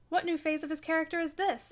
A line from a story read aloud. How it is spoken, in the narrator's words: exclaimed Mrs